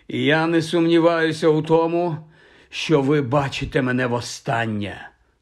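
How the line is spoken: Hoarse. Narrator (Ukrainian): хрипко повідомив він

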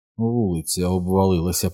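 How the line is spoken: Whispered. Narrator (Ukrainian): прошепотів Біл

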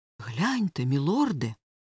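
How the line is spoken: Weak mutter. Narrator (Ukrainian): в нього ледве вистачило сил пробурмотіти

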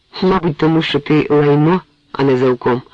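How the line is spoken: Calm summary. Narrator (Ukrainian): спокійно резюмував возниця

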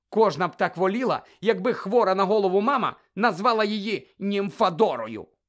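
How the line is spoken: Angry grumble. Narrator (Ukrainian): буркнула сердито Тонкс

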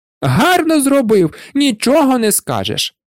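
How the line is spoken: Wife shrieked. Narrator (Ukrainian): верещала дружина

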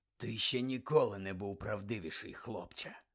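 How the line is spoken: Whisper. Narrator (Ukrainian): Прошепотів хтось за Дамблдором

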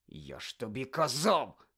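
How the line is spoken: Hiss. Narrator (Ukrainian): засичав Рон на Герміону

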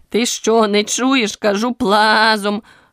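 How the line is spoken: Furious barking sheep. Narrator (Ukrainian): люто гаркнула вівця

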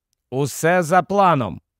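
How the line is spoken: Plain. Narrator (Ukrainian): відповів Гаррі

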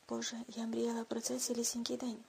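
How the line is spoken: Whispered. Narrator (Ukrainian): прошепотіла

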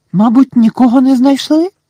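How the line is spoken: Worried exclamation. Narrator (Ukrainian): стурбовано вигукнула Герміона

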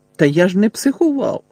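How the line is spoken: Exclaimed. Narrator (Ukrainian): вигукнув Гаррі

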